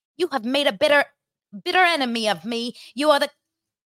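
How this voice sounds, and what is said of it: Attempted Scottish accent. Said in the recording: “I'm going to try to do a Scottish accent. ... No, I can't do it. So I need an actor.”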